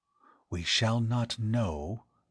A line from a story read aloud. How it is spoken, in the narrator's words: he breathed